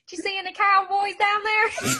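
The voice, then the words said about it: Imitates a boy's regional accent. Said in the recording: “with his accent”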